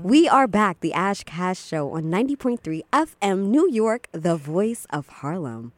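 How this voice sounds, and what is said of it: Radio announcer voice. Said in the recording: “It's your radio voice?”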